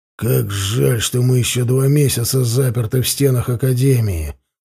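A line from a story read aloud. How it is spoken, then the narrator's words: Grumbling. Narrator (Russian): проворчал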